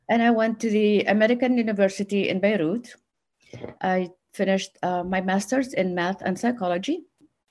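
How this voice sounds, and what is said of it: Noticeable non-native accent. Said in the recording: “people just look at my accent”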